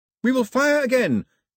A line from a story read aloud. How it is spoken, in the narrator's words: Pilou yelled in the confusion